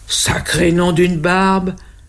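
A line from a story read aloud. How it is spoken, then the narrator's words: Exclaimed. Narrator (French): s'exclame le Père Noël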